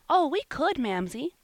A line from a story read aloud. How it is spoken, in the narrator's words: said Polly, eagerly